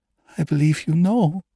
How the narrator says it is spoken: she breathed

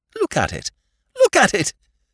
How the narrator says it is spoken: said Whimsy, with a hysterical squeak of laughter

